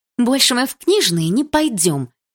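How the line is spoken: Irritated. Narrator (Russian): раздраженно сказала Милана

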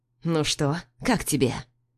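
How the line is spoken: Through gritted teeth. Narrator (Russian): Сквозь зубы бросаю

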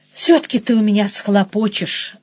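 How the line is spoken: Sighed. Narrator (Russian): вздохнула я

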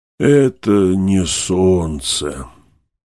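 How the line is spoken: Weak, sick voice. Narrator (Russian): ответил профессор, но таким слабым и больным голосом

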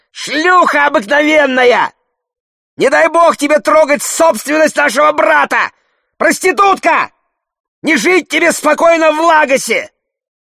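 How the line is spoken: Furious woman shrieking. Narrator (Russian): Одна из женщин, костлявая, распаленная, красноглазая, визжала

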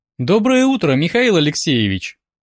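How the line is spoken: Cheerful greeting. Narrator (Russian): Как всегда, бодро поприветствовала меня Света

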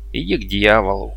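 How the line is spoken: Muttered. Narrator (Russian): буркнул

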